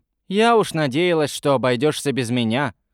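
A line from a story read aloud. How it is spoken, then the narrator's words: Grumbled. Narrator (Russian): проворчала она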